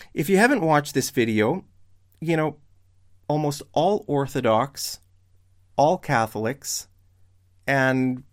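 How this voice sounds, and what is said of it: Strained, failing voice. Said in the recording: “I think I'm losing my voice a bit”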